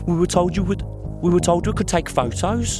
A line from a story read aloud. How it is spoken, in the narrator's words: Claire cried